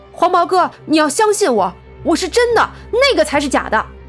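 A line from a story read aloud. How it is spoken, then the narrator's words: Hurried, defensive plea. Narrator (Chinese): 苗阿飘急忙辩解道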